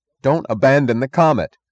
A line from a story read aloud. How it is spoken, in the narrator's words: cried Eddie Willers